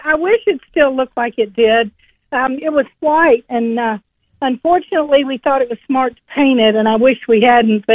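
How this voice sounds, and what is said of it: Lovely Southern American accent. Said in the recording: “you have not lost your accent, and you have a lovely Southern accent”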